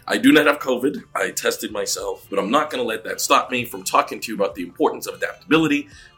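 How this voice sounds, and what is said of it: Voice affected by a cold. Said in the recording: “As you can probably tell from my voice,... have a cold and something wrong with your voice”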